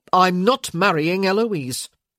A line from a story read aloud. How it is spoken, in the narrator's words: Michael said sharply